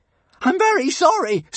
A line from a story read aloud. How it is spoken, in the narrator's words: screamed Hiccup